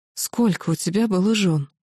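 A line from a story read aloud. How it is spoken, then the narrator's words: Weak strained whisper. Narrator (Russian): как хватило сил прошептать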